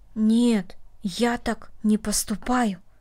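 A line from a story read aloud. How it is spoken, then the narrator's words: Quiet. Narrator (Russian): тихо сказал Дино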